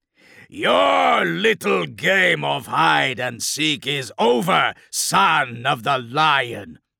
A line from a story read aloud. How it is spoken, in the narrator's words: Furion bellowed as he broke into a run